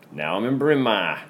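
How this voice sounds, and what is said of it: Boston accent on a word. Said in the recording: “Why does that have a Boston accent? ... I lived in Boston for a year.”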